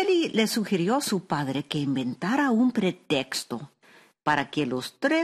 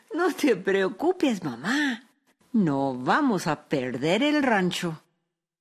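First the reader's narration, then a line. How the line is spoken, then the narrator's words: Laughing. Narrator (Spanish): su hija Araceli, que era una joven lista y muy viva, se rió y dijo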